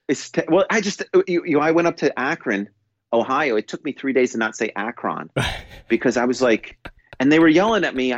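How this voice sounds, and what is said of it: New York accent. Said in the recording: “your New Yorker accent ... my New York English is different, and everyone knows that”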